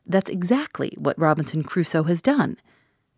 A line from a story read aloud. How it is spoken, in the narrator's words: cried the old man